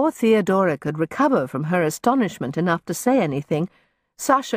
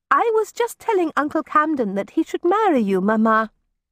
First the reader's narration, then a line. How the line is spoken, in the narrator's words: Masha answered cheerfully